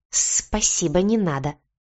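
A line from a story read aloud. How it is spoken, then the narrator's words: Hissed. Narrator (Russian): прошипел кот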